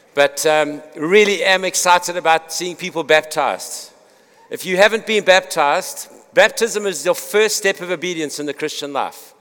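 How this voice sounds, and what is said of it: Congested voice, cutting in and out. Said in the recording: “I've got a sinus thing, so my voice is a little bit in and out.”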